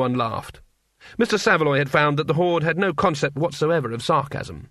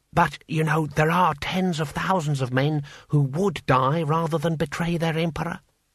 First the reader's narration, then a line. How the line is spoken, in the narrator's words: whispered Six Beneficent Winds